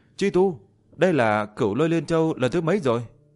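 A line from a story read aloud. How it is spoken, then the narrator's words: Shocked loud shout. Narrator (Vietnamese): Liễu Tuyết cũng bị chấn động đến tái mét mặt, hét lớn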